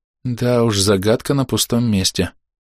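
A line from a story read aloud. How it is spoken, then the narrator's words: Young woman sighing, complaining. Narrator (Russian): вздохнув, посетовала девушка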